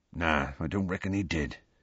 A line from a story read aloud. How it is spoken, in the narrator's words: he said quietly